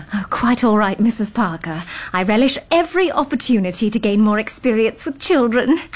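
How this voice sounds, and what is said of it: English accent. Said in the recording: “I love your accent. Are you from England? ... Cambridge, in fact. ... I thought it sounded English.”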